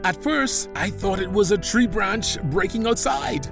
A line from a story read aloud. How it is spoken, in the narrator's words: Ahab excitedly continued